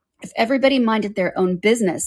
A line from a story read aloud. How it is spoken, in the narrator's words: said the Duchess in a harsh growl